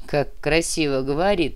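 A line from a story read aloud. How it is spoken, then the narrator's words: Sighing. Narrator (Russian): вздохнул Нера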